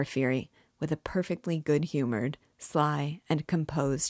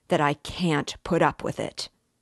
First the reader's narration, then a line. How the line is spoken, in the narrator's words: Raskolnikov cried furiously